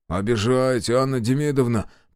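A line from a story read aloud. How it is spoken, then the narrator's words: Low booming drone. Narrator (Russian): прогудел Демьян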